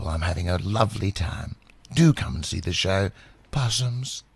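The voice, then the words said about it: Dame Edna Everage impression. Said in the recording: “Can we have a little bit of Dame Edna, please?”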